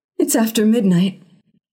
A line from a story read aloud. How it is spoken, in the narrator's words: gasped